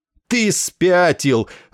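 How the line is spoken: Angry shout. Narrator (Russian): злобно крикнул Денбору Исариан

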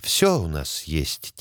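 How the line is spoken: Quiet repetition. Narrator (Russian): тихо повторила кукла

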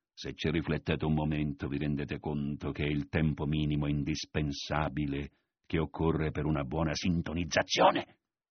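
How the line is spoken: Whispered in the ear. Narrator (Italian): gli disse a voce bassa all'orecchio

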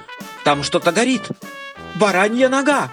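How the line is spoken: Shout. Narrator (Russian): папа закричал

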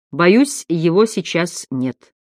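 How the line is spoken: Calm voice on phone. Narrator (Russian): Отец Джеймс Хёрли спокойно проговорил в трубку

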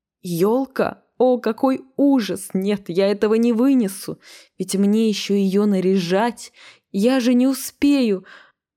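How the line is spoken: Hysterical, near tears. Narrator (Russian): она чуть не разрыдалась в истерике

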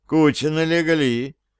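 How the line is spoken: Muttering. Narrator (Russian): пробормотал он

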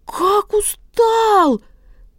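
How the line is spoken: Small bird shrieking. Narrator (Russian): вопит пичуга

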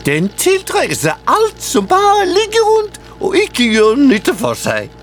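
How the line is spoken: Eager. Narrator (Norwegian): sa Albert ivrig

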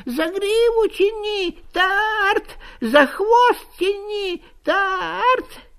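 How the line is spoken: Repeated shouting. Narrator (Russian): все кричал и кричал

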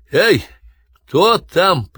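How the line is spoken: Shouted. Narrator (Russian): крикнул

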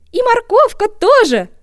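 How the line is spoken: Joyful shout. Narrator (Russian): радостно кричит зайка

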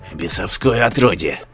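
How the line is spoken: Hissed. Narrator (Russian): шипел

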